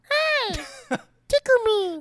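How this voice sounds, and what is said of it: Imitates Elmo's puppet voice. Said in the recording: “Elmo is Elmo ... I Elmo. Wasn't going to do it, but I wanted you to do it”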